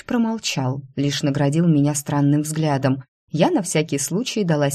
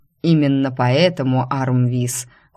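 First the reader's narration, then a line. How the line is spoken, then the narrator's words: Cold reply, ruler. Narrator (Russian): холодно отозвался повелитель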